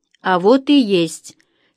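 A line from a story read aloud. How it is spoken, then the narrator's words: Angry mutter. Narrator (Russian): сердито буркнула Инга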